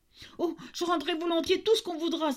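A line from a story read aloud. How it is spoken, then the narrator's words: Innkeeper's hushed exclamation. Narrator (French): s'écria l'aubergiste à demi-voix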